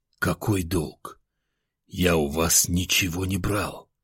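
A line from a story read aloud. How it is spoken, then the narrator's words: Whisper. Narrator (Russian): прошептал я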